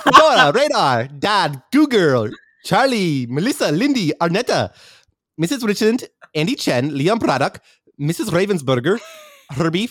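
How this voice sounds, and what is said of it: High-pitched leprechaun voice. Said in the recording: “do it in a leprechaun voice ... It's a high pitch.”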